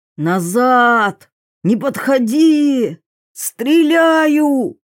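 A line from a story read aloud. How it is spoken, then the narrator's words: Hoarse, cracking voice. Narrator (Russian): срывающимся ломким голосом прохрипел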